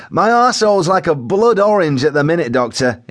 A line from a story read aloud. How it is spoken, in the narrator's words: he shouted, as if in distress, and also not embarrassed to tell it like it is